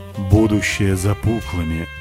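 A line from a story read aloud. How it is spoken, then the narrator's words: Hollow droning proclamation. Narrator (Russian): вещал он унитазным голосом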